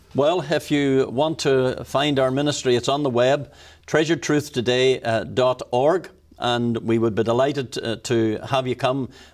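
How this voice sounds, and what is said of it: Irish accent. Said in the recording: “I love this Irishman. I love that accent.”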